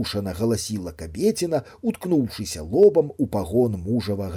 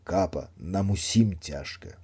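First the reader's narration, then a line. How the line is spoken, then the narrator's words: Muttering. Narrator (Belarusian): мармытаў начальнік дэпо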